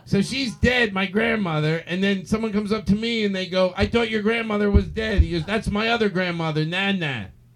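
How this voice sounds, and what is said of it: Imitates another person's voice. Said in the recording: “my impersonation of you”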